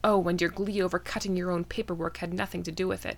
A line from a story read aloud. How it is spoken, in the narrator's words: Selenka muttered